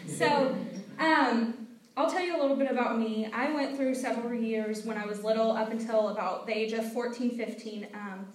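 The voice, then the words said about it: American Midwestern accent. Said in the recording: “Me and Christina both are from America... I'm actually from a state called Illinois... Everybody always wonders because of our accents.”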